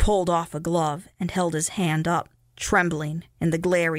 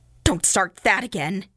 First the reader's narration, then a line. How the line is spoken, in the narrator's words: he snapped